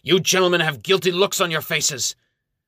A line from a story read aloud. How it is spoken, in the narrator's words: He shouts